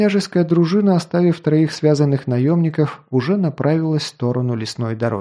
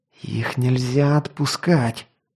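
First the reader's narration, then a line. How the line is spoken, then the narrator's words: Hiss. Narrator (Russian): прошипел Корен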